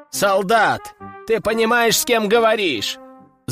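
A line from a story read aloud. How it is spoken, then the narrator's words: Shouting. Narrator (Russian): Закричал другой аристократ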